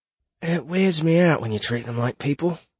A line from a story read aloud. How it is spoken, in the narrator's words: whispered Alder